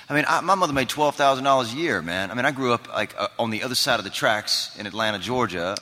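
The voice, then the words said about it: Southern American accent. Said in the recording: “do a great Southern accent.”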